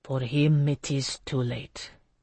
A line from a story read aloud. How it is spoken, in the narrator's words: he said quietly